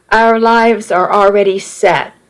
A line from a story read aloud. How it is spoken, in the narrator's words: he said plainly